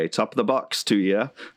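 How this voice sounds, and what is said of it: Light put-on English accent. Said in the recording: “That wasn't an Irish accent. ... That was like English. That was colonialist accent. It was very light, though.”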